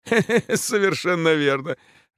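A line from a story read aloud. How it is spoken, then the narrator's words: Hearty laughter. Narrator (Russian): расхохотался Петр Генрихович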